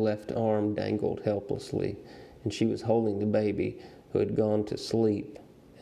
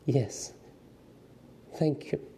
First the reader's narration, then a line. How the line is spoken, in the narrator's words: the mother said faintly